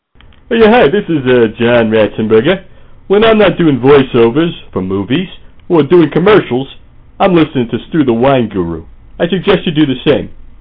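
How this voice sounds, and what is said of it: Imitates another person's voice. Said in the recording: “No actual celebrities were used in the making of this promo, only celebrity impersonators.”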